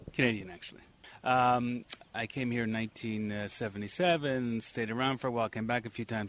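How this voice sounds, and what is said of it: North American accent. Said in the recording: “you sound like an American”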